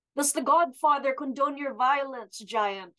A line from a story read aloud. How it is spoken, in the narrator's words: She shouts up